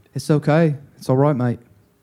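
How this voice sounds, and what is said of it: Bad British-Australian hybrid accent. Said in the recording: “That's a bad German accent... I did like a British Australian hybrid”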